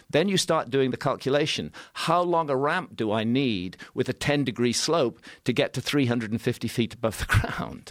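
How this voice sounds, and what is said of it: Mid-Atlantic accent. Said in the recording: “He's got like a transatlantic accent. ... He does. Mid-Atlantic. ... Mid-Atlantic.”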